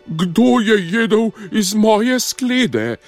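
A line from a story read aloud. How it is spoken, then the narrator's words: Slightly quieter roar. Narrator (Slovenian): Mama medvedka je zarjovela samo malo tiše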